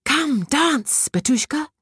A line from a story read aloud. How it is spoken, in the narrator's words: cried the fairy